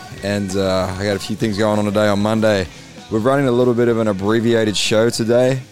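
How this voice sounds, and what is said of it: Tired-sounding voice. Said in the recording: “sorry if I sound a little tired right now, guys, but it is a long trip back from Moree”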